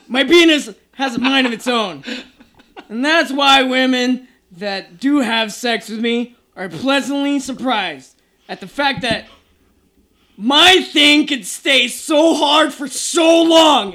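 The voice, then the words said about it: Yelling. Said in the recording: “I'm yelling because it's in caps and exclamation mark”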